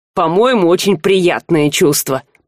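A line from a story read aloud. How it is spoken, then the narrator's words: Grumbling. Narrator (Russian): проворчал Жар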